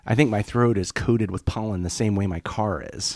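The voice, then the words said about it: Raspy voice. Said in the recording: “A little raspy today, maybe what? This whole week.”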